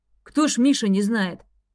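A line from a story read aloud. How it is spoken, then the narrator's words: Snorting. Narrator (Russian): хмыкнул горе-испытатель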